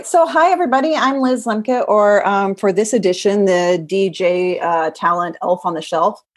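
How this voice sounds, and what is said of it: American accent. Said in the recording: “you've got an American accent”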